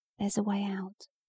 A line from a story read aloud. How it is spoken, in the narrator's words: he whispered